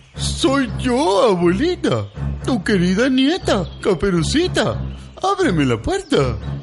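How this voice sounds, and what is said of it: Wolf imitating a little girl's voice. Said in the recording (Spanish): “dijo el lobo imitando la voz de la niña como podía”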